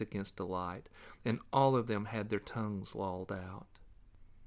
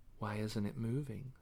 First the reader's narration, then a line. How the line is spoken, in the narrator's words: Stevie whispered